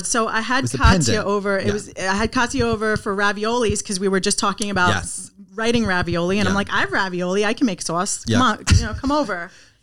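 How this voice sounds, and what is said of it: Strong Long Island accent. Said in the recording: “I love your accent. ... Oh, so hardcore Long Island.”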